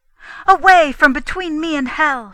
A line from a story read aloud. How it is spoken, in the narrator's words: she cried